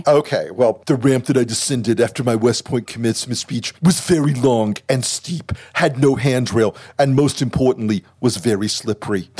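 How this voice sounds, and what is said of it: Imitates another person's voice. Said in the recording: “I'm going to do the tweet in the Trump voice ... You sound like Alec Baldwin.”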